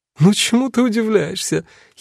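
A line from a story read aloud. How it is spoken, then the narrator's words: Shaman giggling. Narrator (Russian): хихикала шаманка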